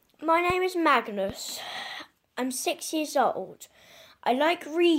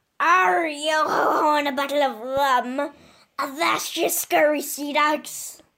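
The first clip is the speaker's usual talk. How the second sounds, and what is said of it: Pirate character voice. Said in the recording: “my pirate impression”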